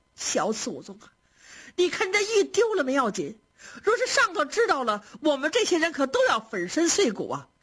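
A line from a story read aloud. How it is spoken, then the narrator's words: Frantic shouting and crying. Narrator (Chinese): 袭人是急得又嚷又哭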